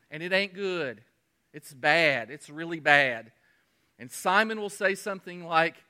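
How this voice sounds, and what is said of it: Usual voice. Nothing is said of it.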